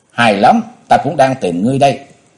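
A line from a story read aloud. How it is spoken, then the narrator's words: Cold loud laughter. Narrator (Vietnamese): Âu Dương Vân Phi chỉ lạnh lùng cười lớn nói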